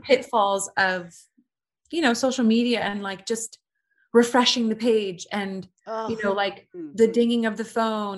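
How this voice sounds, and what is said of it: British accent. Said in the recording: “I'm British. ... I like that accent.”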